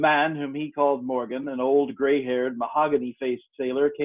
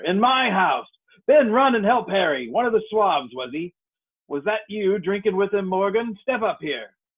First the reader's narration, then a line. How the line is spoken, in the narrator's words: cried Silver